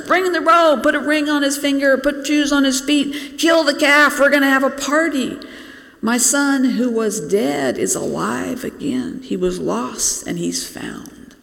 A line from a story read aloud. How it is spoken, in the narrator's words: the father's shouting